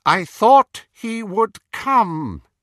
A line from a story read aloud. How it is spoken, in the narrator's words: said Voldemort in his high, clear voice